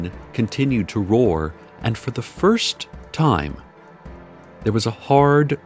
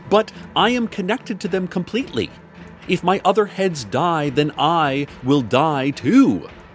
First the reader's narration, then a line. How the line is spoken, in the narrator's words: Violet shouted